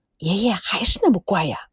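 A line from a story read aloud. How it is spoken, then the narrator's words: Low voice. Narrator (Chinese): 阿莲低声的说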